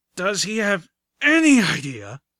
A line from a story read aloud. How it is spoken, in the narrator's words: the griffin carrying Velvet Remedy grunted